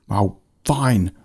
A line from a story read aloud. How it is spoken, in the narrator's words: the Gargan Fan shouted